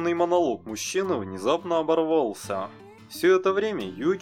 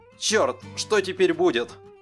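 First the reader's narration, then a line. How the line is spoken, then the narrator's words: Excited group discussion. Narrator (Russian): Мужчины и члены его команды взволнованно заобсуждали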